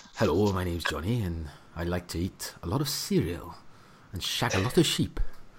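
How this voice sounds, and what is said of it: Put-on accent, done well. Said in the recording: “show off your accent ... I'm pretty good at accents ... You are good ... Pretty good at it”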